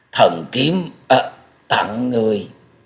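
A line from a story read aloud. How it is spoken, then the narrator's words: Sighing, stammering word by word. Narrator (Vietnamese): Thất Độc Thần Kiếm buông ra một hơi thở dài lắp bắp từng tiếng một nói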